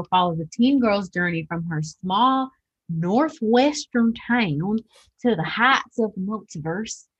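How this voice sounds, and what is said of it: Put-on accent while reading. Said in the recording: “I don't know why I do that accent.”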